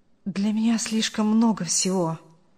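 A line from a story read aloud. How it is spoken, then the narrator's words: Young man's mutter. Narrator (Russian): пробормотал молодой человек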